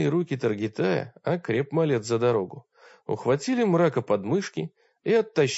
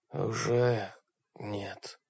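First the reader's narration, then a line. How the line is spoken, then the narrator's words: Rasping darkness. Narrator (Russian): прохрипел мрак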